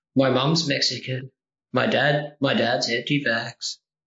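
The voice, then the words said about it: Flat deadpan comedic delivery. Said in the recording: “I was doing you deadpan. I was trying to do an impression of you deadpan.”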